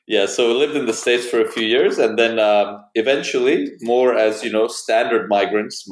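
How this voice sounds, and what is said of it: Mixed international accent, slightly North American. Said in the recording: “my mixed up accent, which some people think is Canadian... You do have a hint of a North American... probably an international accent”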